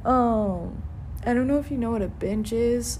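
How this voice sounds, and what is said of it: Emotional, voice choking up. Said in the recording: “I'm getting emotional. Oh my god, I'm getting emotional.”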